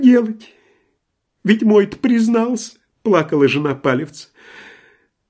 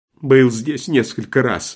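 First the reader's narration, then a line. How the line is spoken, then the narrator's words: Plain answer. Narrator (Russian): ответила трактирщица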